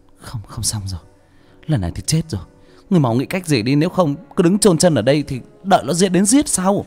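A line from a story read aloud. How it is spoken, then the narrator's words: Panicked stammer. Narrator (Vietnamese): Cô lắp bắp nói với Sáu Chột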